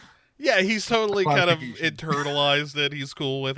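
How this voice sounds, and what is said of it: Usual voice. Nothing is said of it.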